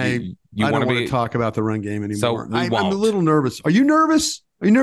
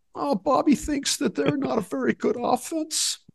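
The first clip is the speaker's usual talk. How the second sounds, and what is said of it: Al Davis impression. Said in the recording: “I can do my Al Davis voice for you.”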